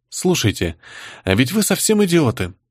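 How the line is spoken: Quiet, fed up. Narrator (Russian): негромко произнесла Паулина Геннадьевна, которой надоело слушать бессмысленное препирательство дикарей

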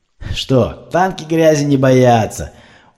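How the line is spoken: Yelling. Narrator (Russian): завопил свой любимый девиз

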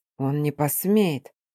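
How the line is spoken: Quiet objection. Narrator (Russian): тихо возразил я

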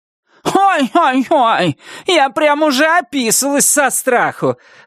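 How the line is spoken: Loud shout. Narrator (Russian): громко крикнула Вильма

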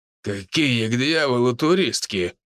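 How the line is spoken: Growling. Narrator (Russian): рыкнул Хосе

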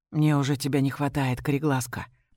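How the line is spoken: Whisper. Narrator (Russian): произносит он шепотом

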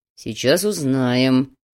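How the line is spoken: Through gritted teeth. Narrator (Russian): Сквозь зубы процедил Слановский

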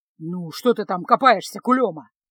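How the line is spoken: Grumbling. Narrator (Russian): проворчал он

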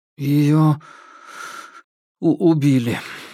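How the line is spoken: Strained, forced out. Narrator (Russian): выдавил Крупенников

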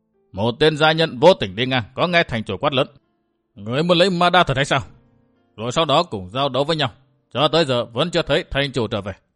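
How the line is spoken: Harsh blunt. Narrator (Vietnamese): Trương Hùng gằn giọng nói thẳng

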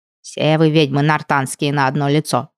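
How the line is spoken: Grumbling. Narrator (Russian): продолжала ворчать домушка

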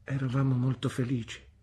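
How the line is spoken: Murmur. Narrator (Italian): mormorò mia madre

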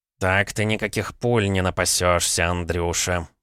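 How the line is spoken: Grumbling. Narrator (Russian): проворчал Савелий

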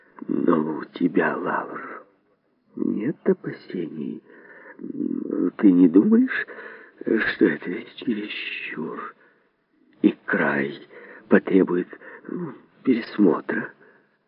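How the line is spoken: Weary repeated question, very quiet. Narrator (Russian): В 20-й раз спросила Полина Исидоровна, добавила совершенно тихо

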